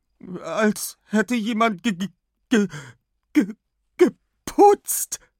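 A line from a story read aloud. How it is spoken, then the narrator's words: Stammering. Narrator (German): stammelt Anna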